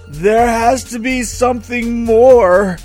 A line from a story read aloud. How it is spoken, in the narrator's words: shouted